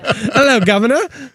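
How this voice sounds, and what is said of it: Put-on British accent. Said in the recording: “break out the British accent”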